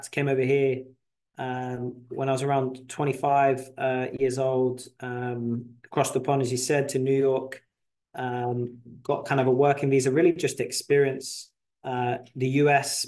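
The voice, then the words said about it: North London English accent. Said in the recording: “obviously you can tell from the accent. So I was born in London, North London, to be exact.”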